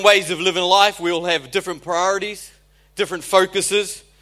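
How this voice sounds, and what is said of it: New Zealand accent. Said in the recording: “I'm not a New Zealander, I don't have the most desirable accent... the New Zealand accent”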